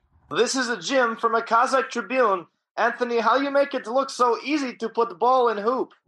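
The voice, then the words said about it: Put-on Kazakh accent. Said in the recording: “I like your accent. It's tough. ... I want to learn how to talk like that.”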